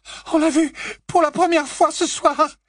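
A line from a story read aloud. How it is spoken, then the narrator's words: Sobbing girl. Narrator (French): sanglota Hermione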